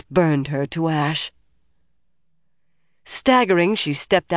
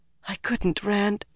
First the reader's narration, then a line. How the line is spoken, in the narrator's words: whispered